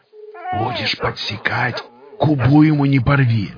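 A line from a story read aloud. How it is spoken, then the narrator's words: Hermit's whisper. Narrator (Russian): прошептал отшельник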